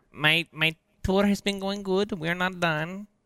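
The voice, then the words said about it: Speaking in a put-on accent. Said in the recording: “in that accent”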